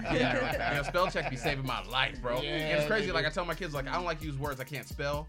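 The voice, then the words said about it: Southern American accent. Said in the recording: “I got, like, a southern, like, accent”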